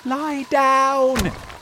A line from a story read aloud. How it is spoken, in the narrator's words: shouted James